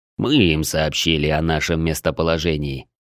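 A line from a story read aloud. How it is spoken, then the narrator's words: Calm. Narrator (Russian): спокойно ответил Клык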